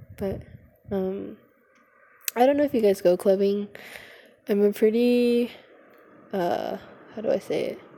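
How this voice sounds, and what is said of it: Hoarse, winded voice. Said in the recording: “I'm winded from coming up the stairs, guys... I'm so hoarse.”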